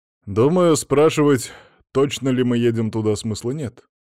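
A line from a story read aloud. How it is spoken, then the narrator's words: Skeptical snort. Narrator (Russian): хмыкнул Пирсон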